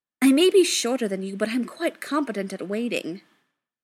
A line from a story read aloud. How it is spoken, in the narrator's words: he snapped, a bit irritated